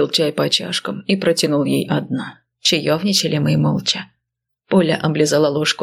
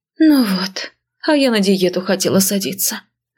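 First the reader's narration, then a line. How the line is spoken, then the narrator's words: Sighing. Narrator (Russian): вздохнула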